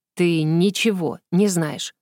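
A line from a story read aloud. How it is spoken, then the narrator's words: Gloomy, through clenched teeth. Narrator (Russian): процедил сквозь стиснутые зубы помрачневший принц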